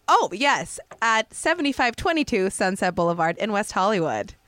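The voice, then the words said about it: Mock radio announcer voice. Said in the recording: “I like my announcer voice ... I do love a good announcer voice”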